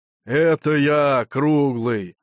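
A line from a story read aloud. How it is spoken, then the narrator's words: Displeased reply. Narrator (Russian): ответили недовольным голосом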